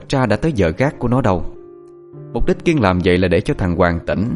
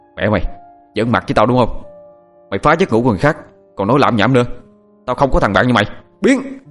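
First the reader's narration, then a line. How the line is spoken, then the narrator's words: Angry shout. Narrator (Vietnamese): Thằng Hoàng quát lên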